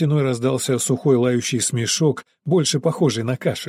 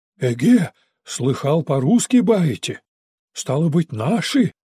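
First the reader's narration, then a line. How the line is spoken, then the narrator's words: Hoarse, muffled through cracks. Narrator (Russian): раздался сквозь щели хриплый простуженный голос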